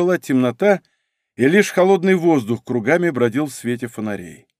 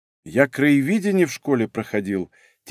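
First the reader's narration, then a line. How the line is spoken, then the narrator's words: Quiet. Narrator (Russian): тихо сказал Леша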